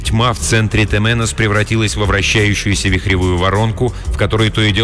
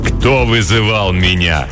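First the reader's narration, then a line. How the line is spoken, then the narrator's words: Menacing dark creature question. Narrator (Russian): грозно спросило темное существо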